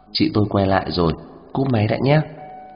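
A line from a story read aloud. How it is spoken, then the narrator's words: Quick low voice. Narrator (Vietnamese): Kiều An Hảo nhỏ giọng nói rất nhanh vào trong điện thoại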